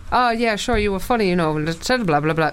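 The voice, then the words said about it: Poorly done put-on Irish accent. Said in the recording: “terrible Irish accent”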